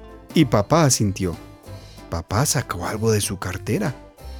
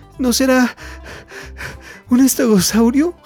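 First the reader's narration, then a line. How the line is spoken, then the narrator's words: Gasped. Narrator (Spanish): jadeó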